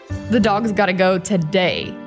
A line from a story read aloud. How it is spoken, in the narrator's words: said with a chuckle